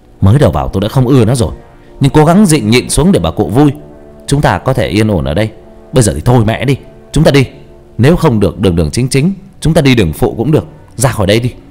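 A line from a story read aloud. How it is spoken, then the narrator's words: Harsh, restrained anger. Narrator (Vietnamese): Hào gằn giọng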